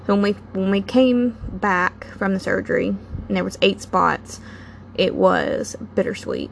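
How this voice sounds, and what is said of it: Emotional voice cracking slightly. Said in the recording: “my voice cracking a little ... that will always be emotional for me”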